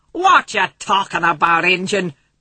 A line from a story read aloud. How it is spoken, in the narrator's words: Boone yelled tauntingly across the chasm dividing him from Little Bull